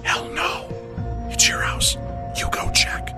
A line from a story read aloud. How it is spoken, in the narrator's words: whispered